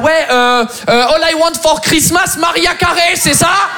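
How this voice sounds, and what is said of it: Exaggerated fake French accent on English. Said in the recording (French): “je vais devoir falsifier un accent français maintenant quand je parle ma propre langue pour gagner le jeu”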